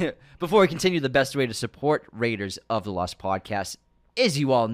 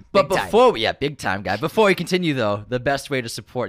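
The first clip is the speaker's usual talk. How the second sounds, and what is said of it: Put-on Boston accent. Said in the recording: “you hear that Boston accent there”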